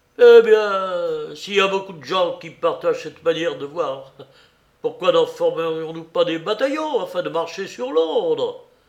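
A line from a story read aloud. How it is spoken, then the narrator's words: Exclaimed. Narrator (French): s'écria de Lapp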